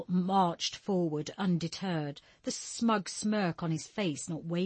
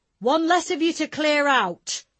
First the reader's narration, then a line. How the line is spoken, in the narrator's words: he cried back